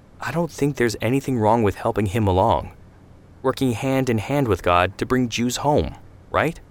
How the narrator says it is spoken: Amada sighed

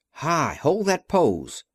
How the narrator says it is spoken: called Von Herman happily

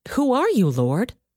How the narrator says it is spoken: Saul asked

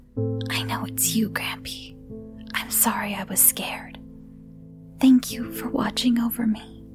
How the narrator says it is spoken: whispered

